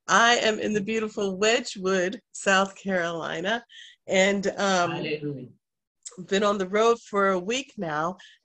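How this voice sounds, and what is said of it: Congested, groggy-sounding voice. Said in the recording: “you can probably tell my voice sounds different. I am experiencing allergies, and so it comes with symptoms of runny nose, coughing, just feeling groggy, sinuses”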